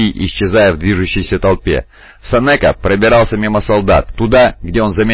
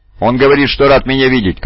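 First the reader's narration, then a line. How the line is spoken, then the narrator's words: Shout. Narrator (Russian): крикнул Кайда Пашам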